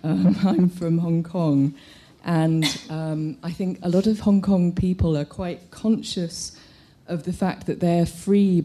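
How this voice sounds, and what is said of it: British colonial-sounding English accent. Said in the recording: “my very metropolitan, non-metropolitan accent. If I sound like I was born at the tail end of the British Empire”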